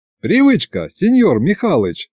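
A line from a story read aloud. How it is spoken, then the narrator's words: Laughing. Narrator (Russian): засмеялся Сержио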